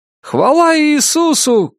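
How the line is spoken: Shout from audience. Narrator (Russian): крикнул кто-то из зала

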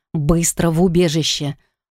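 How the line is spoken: Threatening beastly growl. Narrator (Russian): Вновь рыкнул он, угрожающе оскалив белые клыки

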